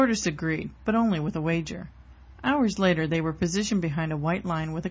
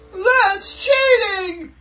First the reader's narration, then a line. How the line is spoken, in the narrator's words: Hare yelled